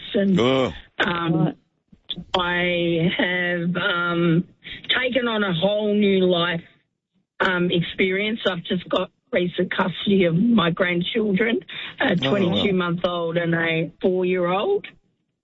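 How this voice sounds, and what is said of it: Hoarse, laryngitic voice. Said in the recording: “excuse my voice. It's not sore. I've got a bit of laryngitis.”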